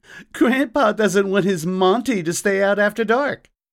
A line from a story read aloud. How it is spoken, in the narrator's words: chuckled Subway Smith